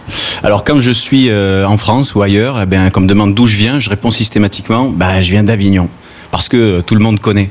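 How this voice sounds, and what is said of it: Southern French accent, from the Gard. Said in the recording (French): “vous l'entendez certainement, je suis d'ici... je suis du Sud, j'ai l'accent du Sud... tu as l'accent du Gard”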